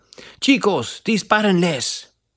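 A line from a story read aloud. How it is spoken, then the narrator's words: Captain exclaiming. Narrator (Spanish): escucharon al capitán enemigo exclamar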